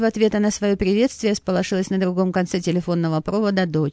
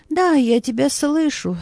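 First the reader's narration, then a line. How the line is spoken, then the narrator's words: Hoarse, choked with bitterness. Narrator (Russian): хрипло произнесла Анна Сергеевна, сглотнув ком горечи, сдавливавшей ей горло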